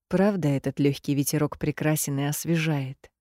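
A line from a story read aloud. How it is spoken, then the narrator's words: Muttered. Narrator (Russian): бормочет Рик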